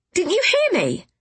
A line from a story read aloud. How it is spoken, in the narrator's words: exclaimed Damaris